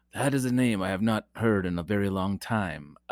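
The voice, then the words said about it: Obi-Wan Kenobi impression, odd accent. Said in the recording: “I want to cue the Obi-Wan Kenobi... I don't know what accent that was.”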